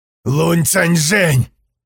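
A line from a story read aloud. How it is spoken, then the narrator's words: Shout. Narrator (Russian): крикнул он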